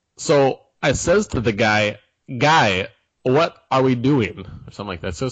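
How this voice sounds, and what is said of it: Christopher Walken impression. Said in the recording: “do a Christopher Walken impersonation”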